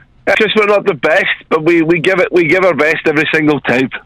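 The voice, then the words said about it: Scottish accent. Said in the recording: “you are Scottish... Oh, listen to the accent... I love that you got the accent”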